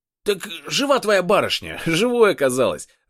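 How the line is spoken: Laughing gleefully. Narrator (Russian): рассмеялся

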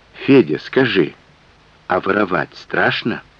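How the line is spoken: Asked quietly. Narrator (Russian): тихонько спросил его

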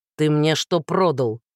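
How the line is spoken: Growled. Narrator (Russian): прорычал он

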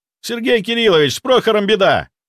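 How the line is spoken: Shouting out. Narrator (Russian): выкрикнул я

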